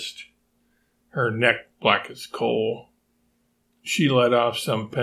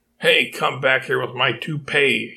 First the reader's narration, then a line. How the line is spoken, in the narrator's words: he cried out